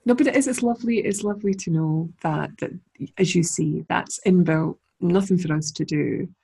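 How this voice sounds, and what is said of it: Scottish accent. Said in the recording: “my lovely Scottish accent”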